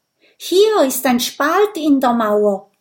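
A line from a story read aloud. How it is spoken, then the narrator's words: Calling out. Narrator (German): ruft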